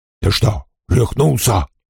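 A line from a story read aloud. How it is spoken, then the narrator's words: Hissed. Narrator (Russian): прошипел он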